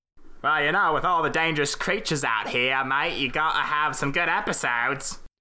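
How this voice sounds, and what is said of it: Put-on Australian accent. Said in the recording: “Australian accents”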